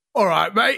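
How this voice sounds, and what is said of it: Put-on London geezer accent. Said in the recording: “give me a diamond accent... a diamond geezer accent”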